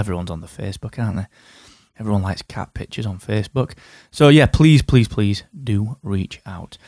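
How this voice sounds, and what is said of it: Northern English accent. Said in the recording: “my silly Northern English accent”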